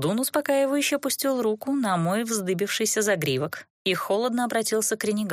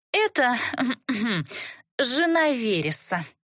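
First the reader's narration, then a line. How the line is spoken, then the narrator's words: Reluctant mutter. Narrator (Russian): Нехотя буркнула Катисса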